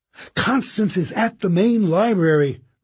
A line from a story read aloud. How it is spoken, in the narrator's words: Rennie cried